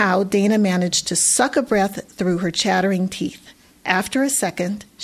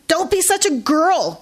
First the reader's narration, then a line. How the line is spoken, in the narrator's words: Gage shouted